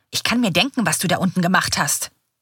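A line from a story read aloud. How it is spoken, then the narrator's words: Hostile hiss. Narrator (German): faucht er mit schmalen Augen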